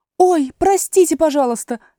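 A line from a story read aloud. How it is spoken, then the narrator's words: Hasty apologetic exclamation. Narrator (Russian): торопливо воскликнула Алиса, поняв, что ее слова задели мышь за живое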